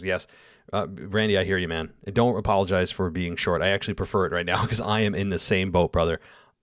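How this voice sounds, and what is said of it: Tired, worn-out voice. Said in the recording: “I am beat to the bone right now. You can probably hear it in my voice.”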